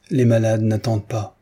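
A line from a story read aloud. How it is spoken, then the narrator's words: Plain reply. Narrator (French): répondit Raïssa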